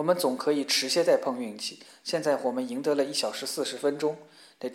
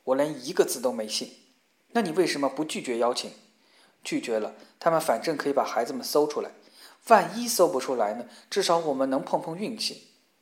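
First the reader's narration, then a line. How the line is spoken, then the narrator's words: Angry. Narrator (Chinese): 法比愤怒地说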